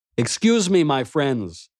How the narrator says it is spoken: I called out to them

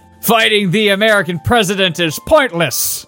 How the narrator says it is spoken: shouted Eden

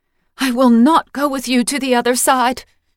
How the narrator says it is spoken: she cried, although no sound left her mouth

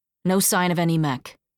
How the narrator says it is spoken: she said

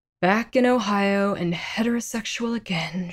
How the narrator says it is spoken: she sighed

